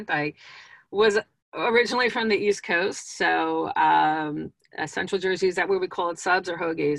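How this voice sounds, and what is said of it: East Coast New Jersey accent. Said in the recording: “I love talking to people from New Jersey, as you can probably tell from my accent.”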